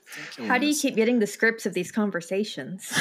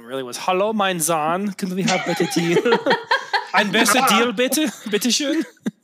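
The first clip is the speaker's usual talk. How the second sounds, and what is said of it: Put-on mock foreign accent. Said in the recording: “I think the only thing you missed was the accent.”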